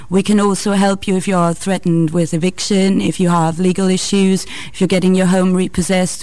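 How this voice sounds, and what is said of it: Austrian-accented English. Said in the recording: “You're not from Bristol yourself, I can tell from your accent ... Austria”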